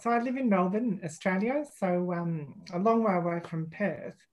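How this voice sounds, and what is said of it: Australian accent. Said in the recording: “you're in the minority being a lover of the Australian accent ... they don't have the same accent that you”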